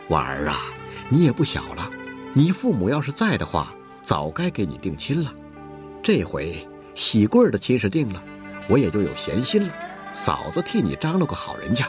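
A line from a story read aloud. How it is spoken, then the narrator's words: Smiling. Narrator (Chinese): 他也笑着，还说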